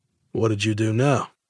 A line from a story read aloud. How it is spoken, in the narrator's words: with a sigh